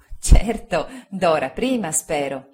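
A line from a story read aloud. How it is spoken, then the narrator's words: Laughing. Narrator (Italian): disse Agnese ridendo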